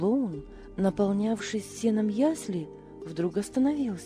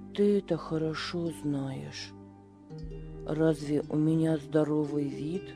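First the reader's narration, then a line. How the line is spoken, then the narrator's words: Calm reply. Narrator (Russian): спокойно ответил Беппо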